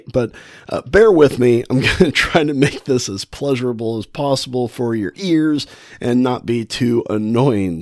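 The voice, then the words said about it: Wheezy, congested voice with a cold. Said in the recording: “If you hear me kind of wheezy and coughy ... the coughs and the hacks and the sniffles ... I sound a little different, I'm a little bit under the weather. I think I've got a cold going on. It's messing with my asthma.”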